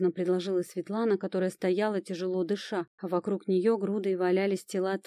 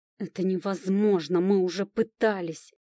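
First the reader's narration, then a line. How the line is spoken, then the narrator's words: Hissed. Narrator (Russian): прошипел Тирон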